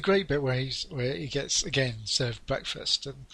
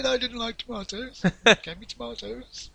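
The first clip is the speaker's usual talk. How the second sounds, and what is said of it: Muttering impression of a character. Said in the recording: “he starts muttering about tomatoes ... that was my impression of Michael ... It was absolutely spot on, perfect.”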